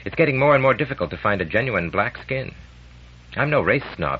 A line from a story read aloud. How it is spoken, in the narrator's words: he added hastily